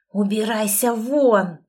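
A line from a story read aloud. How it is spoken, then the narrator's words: Hissed. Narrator (Russian): прошипел он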